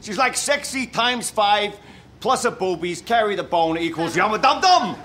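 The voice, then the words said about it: Exaggerated parody New York accent. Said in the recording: “offensive New York accent, maybe ... I don't know if it's meant to be New York or just general American parody ... it's a parody accent, which it sounds like it is”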